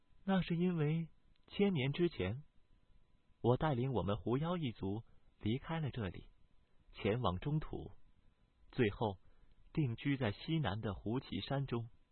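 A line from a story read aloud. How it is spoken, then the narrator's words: Calm, indifferent. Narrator (Chinese): 小白淡淡的道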